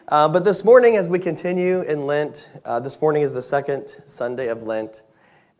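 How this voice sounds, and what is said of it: Strained, worn-out voice. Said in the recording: “extend my voice so much that I sound like this ... the sermon may get shorter if I lose my voice”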